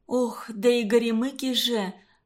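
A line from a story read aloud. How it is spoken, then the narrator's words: Sighing. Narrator (Russian): вздохнула она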